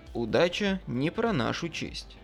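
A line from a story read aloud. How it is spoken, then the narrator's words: Plain. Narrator (Russian): ответил я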